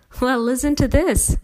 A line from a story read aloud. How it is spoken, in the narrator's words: Mom laughed